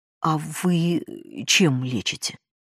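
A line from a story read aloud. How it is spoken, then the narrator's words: Timid question. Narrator (Russian): робко спросила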